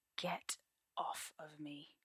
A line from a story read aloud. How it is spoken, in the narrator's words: Merlin says tightly